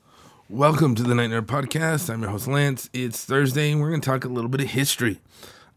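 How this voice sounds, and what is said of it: Strained, raspy damaged voice. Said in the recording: “my voice is not getting any better. I sound like a 1970s rock DJ ... it hurts to just talk like this”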